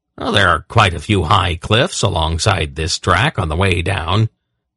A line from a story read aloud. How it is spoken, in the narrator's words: he replied blandly